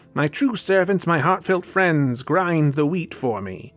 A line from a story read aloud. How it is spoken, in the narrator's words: shouted